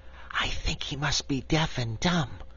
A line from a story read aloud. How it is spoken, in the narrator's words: Cake whispered to her companion